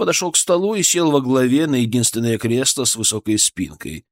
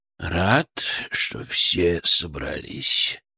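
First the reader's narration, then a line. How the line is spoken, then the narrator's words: Unctuous, enveloping voice. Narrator (Russian): начал он елейным, обволакивающим голосом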